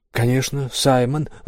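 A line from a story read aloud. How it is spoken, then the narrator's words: Exclamation. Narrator (Russian): воскликнул Роб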